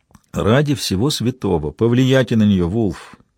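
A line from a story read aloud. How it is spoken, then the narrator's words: Muttered. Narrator (Russian): пробормотал он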